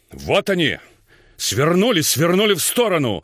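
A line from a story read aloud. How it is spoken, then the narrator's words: Shouted. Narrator (Russian): закричал дядя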